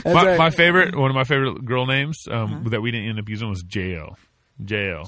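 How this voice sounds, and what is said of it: Texas accent. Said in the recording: “that's my Texas accent coming out.”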